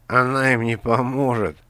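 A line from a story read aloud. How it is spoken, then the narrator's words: Creaky voice. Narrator (Russian): проскрипел Каргантус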